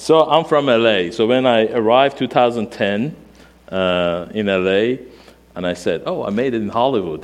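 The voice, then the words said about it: Non-native English accent. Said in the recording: “accent, everything is weird ... speak better, better English”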